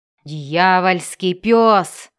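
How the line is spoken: Growled. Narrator (Russian): прорычал он

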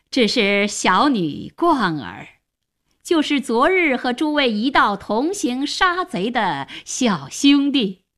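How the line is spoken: Slight smile, addressing group. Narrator (Chinese): 荀松微微一笑，向大家说

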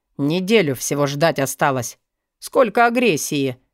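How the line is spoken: Scornful snort. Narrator (Russian): фыркнул Алви

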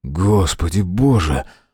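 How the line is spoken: Breathed exclamation. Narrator (Russian): выдохнул Мэлори

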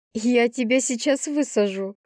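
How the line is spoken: Laughing. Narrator (Russian): хохотнула я

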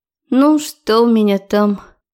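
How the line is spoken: Sad question. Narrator (Russian): Грустно поинтересовалась

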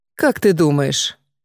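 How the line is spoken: Thoughtful. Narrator (Russian): Задумчиво проговорила брюнетка

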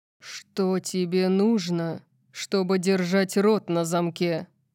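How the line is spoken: Growling. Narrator (Russian): прорычал он

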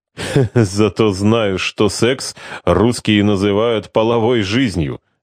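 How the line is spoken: Laughing, spoken in Russian. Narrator (Russian): рассмеявшись, произнес Валерио это выражение по-русски

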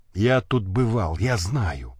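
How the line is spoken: Whisper. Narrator (Russian): шепнул

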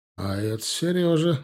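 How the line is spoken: Condescending sigh. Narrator (Russian): вздохнул снисходительно

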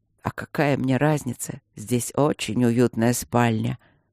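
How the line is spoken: Quiet. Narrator (Russian): тихо сказал Алекс

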